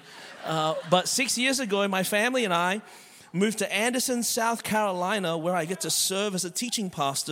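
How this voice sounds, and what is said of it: Australian accent. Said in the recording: “born and raised in Melbourne, Australia. That's the reason my voice is this way.”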